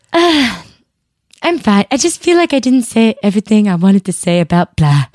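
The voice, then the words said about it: Imitates another person's voice. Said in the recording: “That's a totally good impression of me.”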